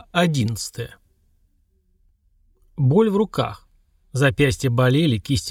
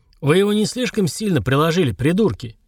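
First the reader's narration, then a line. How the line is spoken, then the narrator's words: Low, husky voice. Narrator (Russian): Низкий хрипловатый голос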